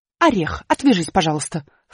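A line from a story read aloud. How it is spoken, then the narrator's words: Snorted. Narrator (Russian): фыркнула буква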